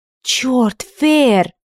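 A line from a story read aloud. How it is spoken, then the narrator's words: Exaggerated theatrical exclamation. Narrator (Russian): с нарочитым пафосом воскликнула она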